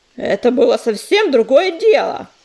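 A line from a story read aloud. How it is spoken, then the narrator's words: Yelling. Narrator (Russian): завопил Сераус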